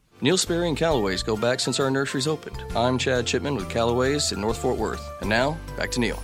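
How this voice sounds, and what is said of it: Polished radio announcer voice. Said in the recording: “That is an announcer voice, isn't it? He's good.”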